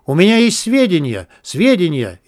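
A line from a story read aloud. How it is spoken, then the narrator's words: Hysterical cry, former leader. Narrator (Russian): истерически вскрикнул бывший главарь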